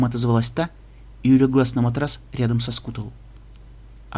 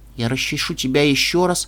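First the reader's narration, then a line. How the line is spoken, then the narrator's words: Girl, smiling. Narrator (Russian): улыбнулась девочка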